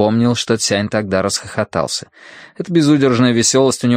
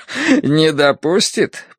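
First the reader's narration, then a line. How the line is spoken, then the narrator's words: After laughter, repeating. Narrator (Russian): повторил поэт, закончив смеяться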